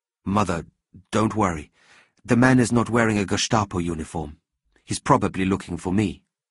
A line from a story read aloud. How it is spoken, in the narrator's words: said Leopold calmly